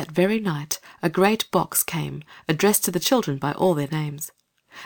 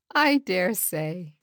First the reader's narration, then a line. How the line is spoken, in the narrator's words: said Mother, laughing